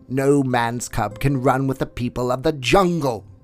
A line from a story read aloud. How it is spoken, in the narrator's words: roared Shere Khan